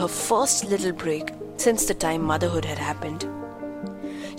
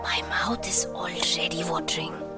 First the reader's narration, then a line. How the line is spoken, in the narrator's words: whispered Prisha with a sheepish grin